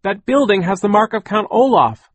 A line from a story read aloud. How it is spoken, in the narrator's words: Klaus shouted